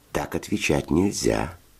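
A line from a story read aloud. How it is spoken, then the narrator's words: Gentle, affectionate. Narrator (Russian): ласково объяснил Федя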